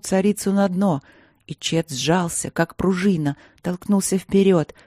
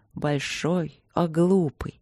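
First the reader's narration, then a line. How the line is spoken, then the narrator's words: Upset, soft mutter. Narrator (Russian): бормотала государыня расстроенно и мягко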